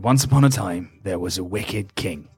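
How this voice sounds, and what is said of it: Old man's storytelling voice. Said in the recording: “you just hear this old man's voice go ... Oh, great accent.”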